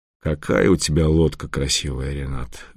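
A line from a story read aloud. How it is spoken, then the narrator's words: Breathless exhale. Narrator (Russian): выдохнул Федор Семенович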